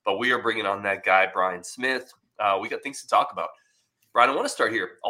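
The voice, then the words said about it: Slightly rough, off-sounding voice. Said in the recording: “my voice is a little iffy. I'm getting over a cold.”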